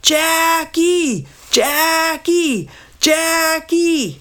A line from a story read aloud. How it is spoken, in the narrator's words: Dad yelled real loud